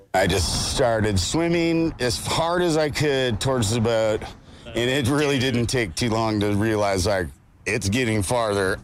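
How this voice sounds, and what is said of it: Strong Californian accent. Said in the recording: “the most California accent ever, which is fantastic”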